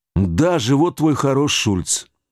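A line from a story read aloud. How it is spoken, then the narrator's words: Gloomy. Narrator (Russian): сказал мрачно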